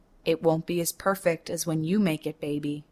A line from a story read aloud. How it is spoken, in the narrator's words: he says